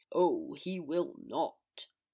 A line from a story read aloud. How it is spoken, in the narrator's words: Father growled